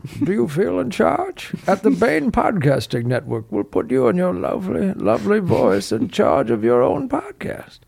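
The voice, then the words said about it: Bane impression. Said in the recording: “reading a Bane accent.”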